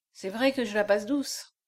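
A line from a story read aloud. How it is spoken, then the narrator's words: Murmured, slightly bitter. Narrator (French): murmura Echalot avec une petite pointe d'amertume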